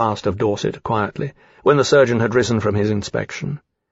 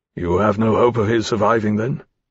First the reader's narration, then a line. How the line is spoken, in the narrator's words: Lawrence said